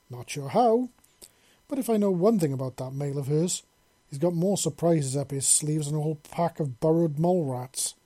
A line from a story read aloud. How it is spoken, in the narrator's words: Vess said, chuckling